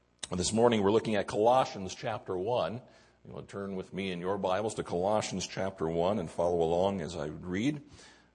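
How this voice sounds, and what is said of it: Hoarse, croaky voice. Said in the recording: “excuse my voice ... I think a frog took up residence last night”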